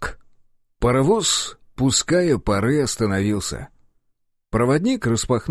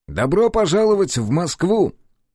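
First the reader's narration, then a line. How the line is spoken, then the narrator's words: Cheerful. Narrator (Russian): весело произнес он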